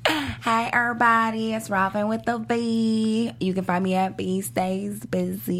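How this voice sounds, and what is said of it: Put-on Southern American accent. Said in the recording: “Got a southern accent. ... like you have some sweet tea.”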